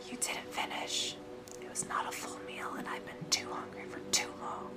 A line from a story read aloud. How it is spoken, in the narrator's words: Jack leaned to him, and whispered